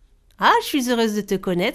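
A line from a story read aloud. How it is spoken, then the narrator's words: Plain. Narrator (French): dit la lune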